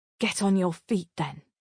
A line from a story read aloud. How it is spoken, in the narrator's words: I hiss to myself